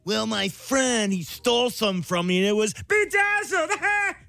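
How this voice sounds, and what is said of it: Pee-wee Herman character voice. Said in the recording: “your best impression ... you could be a Pee Wee Herman impersonator”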